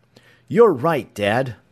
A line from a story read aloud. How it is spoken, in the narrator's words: Tom exclaimed